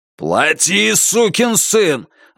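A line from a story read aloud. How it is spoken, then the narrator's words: Roared. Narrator (Russian): взревел Бернхард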